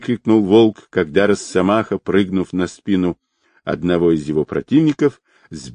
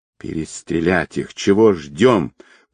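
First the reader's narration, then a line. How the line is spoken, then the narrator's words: Hissing, big man. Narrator (Russian): прошипел одноглазый здоровенный якут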